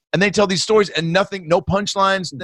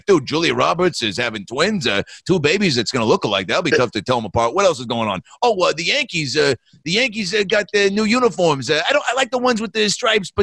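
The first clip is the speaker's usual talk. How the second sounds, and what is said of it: Imitates another person's voice. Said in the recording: “his impression”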